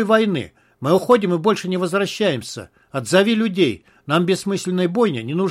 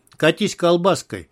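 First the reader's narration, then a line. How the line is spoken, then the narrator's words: Rude. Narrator (Russian): грубо посоветовал подполковник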